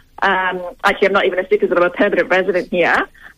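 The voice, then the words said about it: Non-Australian foreign accent. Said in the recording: “you can probably tell from my accent that I'm a very, very new”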